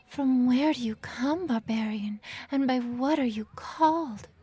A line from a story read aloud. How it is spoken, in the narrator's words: gasped the complying wench